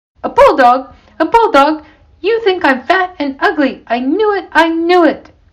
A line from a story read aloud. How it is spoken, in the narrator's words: Johnson blurted out